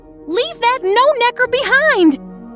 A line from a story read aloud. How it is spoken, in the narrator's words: yelled Jules